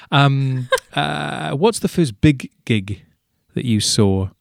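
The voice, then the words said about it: Deliberately bad put-on accent. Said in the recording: “he says in a terrible accent”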